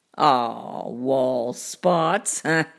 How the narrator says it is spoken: he laughed

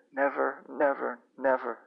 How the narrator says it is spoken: cried

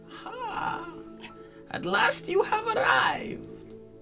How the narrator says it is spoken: Cackling laughter bursts like mad lightning from her withered lips

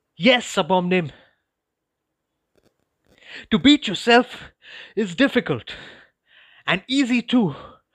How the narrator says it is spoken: I continued between breaths

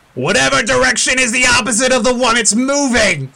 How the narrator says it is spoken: One of the sailors near you that was kind of thrown to the ground as a result of the spinning of the wheel yells back up to you

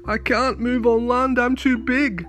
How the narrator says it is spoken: moaned the whale

